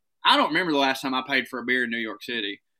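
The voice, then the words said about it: Thick Southern US accent. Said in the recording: “my accent actually is thicker ... my accent's a little bit thicker than yours ... stereotypes, not just of the South”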